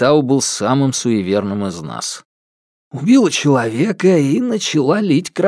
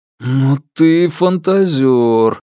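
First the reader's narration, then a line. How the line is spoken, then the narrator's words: Drawled. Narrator (Russian): протянул я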